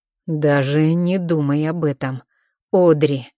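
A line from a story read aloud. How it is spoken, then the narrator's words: Low, almost animal growl. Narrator (Russian): Его голос звучит непривычно низко, и от этого низкого, почти звериного рычания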